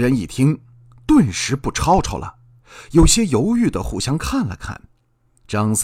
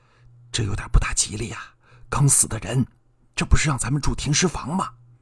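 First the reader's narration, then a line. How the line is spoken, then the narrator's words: Uneasy muttering. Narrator (Chinese): 李四、王五、赵六也有点犯嘀咕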